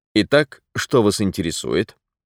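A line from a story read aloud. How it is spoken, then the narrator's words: Businesslike tone. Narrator (Russian): седоватый ковбой деловым тоном произнес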